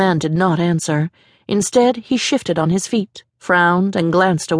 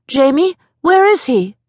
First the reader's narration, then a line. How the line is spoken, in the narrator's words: shouted over the blast of wind